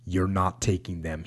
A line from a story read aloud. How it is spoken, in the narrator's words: he said